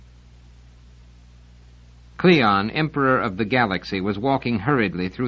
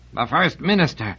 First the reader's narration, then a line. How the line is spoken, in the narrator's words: he said in an almost strangled voice, not at all like the carefully cultivated tones he had painstakingly assumed along with the throne